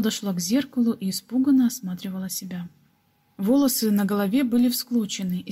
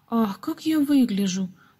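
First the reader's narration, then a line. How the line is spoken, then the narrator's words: Sudden exclamation. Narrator (Russian): вдруг воскликнула Гизела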